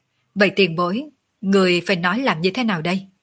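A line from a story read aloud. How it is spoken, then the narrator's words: Smiling. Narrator (Vietnamese): Ngọc Cơ Tử mỉm cười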